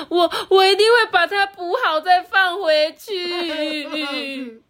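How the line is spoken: Wailing sobs. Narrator (Chinese): 五号小狐狸再也忍不住嚎啕大哭的说

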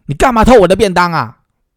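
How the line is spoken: Shouting. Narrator (Chinese): 我就喊

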